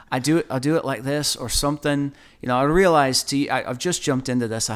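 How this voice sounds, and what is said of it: Terrible put-on accent. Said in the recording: “I do them in an accent ... that's a terrible accent”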